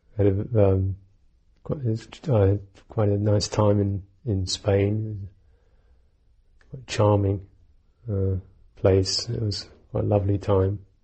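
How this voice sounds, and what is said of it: Rough, hoarse voice. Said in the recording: “my voice is kind of a bit on the rocks.”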